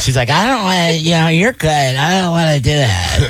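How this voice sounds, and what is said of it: Mocking imitation of a woman's voice. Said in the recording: “She doesn't sound like that... my impression... why do you make me sound like I'm stupid all the time?”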